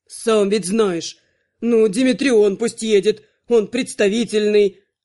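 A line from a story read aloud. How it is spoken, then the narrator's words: Forceful exhale. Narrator (Russian): Анхайлик силой выдохнул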